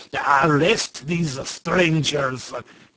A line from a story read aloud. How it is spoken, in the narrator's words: commanded Quitoful, in a voice like a roar